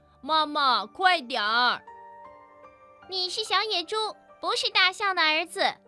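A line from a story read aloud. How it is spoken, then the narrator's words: Young boar shouting loudly. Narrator (Chinese): 小野猪也大声地喊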